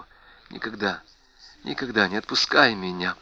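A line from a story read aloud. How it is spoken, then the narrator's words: Whispered. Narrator (Russian): прошептала она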